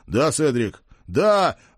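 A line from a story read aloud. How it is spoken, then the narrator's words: Howling. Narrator (Russian): взвыл я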